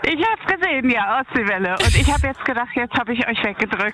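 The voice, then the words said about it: Out of breath. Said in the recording (German): “Du klingst so aus der Puste.”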